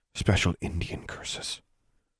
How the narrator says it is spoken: whispered in Alexandra's ear

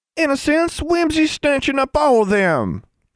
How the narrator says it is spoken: Dunn wailed

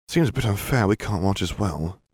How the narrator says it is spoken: Harry muttered

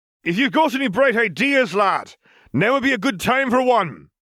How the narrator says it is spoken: Gabriel shouted over the din

